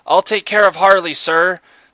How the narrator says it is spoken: the soldier shouted

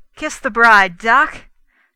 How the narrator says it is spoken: cried the O'Keefe

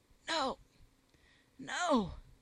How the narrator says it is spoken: gasped the princess, struggling for the breath

